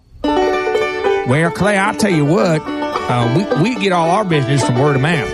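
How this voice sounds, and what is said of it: Put-on redneck accent. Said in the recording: “I sound like a redneck”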